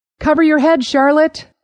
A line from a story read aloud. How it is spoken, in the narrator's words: Sanderson shouted through the din